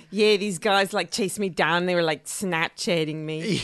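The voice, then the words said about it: Imitated accent of reality contestant. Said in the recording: “That's a pretty good accent.”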